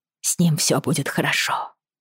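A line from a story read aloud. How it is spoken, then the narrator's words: Whisper. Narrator (Russian): прошептала она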